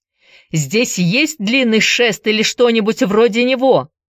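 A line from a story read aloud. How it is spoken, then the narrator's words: Shouting. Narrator (Russian): закричал Энди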